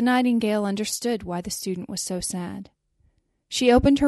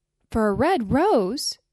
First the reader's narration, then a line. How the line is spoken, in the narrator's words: they cried and laughed